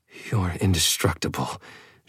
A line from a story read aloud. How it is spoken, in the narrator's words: she mumbled